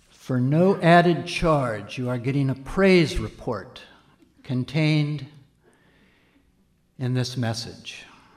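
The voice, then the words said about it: Impression of another pastor's voice. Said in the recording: “another Pastor Bob impersonation”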